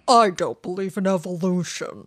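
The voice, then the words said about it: Imitates another person's voice. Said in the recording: “Ben Stein? ... Ben Stein impersonation”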